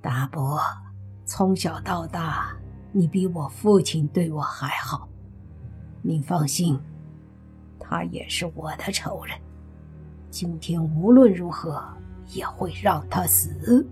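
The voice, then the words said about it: Hoarse, raspy voice. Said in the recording (Chinese): “用沙哑的声音说”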